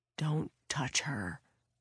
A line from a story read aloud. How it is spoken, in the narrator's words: Frank whispered